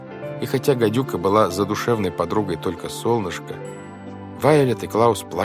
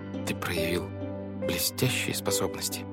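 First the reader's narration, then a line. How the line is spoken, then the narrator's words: Whisper. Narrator (Russian): шепнула Вайолет Клаусу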